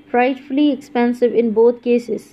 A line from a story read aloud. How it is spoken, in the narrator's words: said the girl